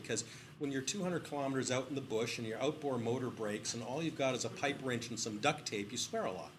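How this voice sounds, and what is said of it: British accent. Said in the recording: “can't tell by my accent. I was born in the UK”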